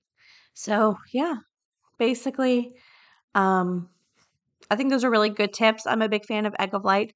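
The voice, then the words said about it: Strained, fading voice. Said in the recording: “I think I'm losing my voice ... I'm really struggling ... So I'll sound better tomorrow”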